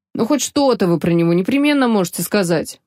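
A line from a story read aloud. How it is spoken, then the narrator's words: Grumble. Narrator (Russian): проворчал Беттини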